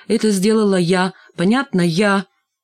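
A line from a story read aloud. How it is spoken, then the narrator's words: Loud smiling repetition. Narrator (Russian): улыбнулась и повторила громко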